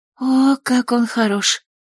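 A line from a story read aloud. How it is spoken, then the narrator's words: Moan. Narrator (Russian): простонала Клэс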